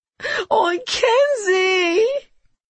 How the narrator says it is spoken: She wailed

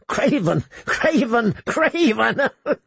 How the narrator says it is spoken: He giggled hysterically

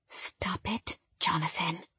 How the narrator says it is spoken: Stacy whispered

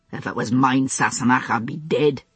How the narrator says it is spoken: he said testily

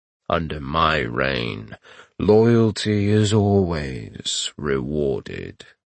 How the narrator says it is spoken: Azabek purred

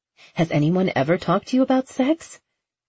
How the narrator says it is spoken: He groaned

